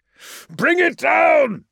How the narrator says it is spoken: Arkadaisy was bellowing now, venting his frustration

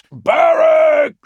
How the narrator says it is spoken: shouted Vulcan

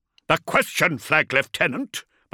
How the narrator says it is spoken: Beaumont rumbled

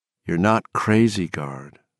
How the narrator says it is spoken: Anderson said quietly

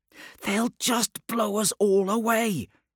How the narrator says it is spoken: hissed Hasquin

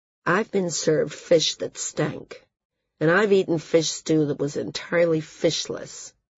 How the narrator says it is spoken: Val said coolly

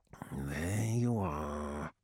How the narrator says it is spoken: whispered Sanakht

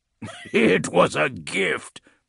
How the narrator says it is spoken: Bubonicus said, chuckling

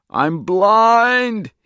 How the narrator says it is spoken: he screamed again

